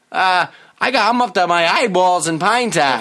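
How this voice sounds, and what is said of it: Put-on Boston-area accent. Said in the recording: “I'm doing a Saugus accent here... you're doing more of like a Roslindale”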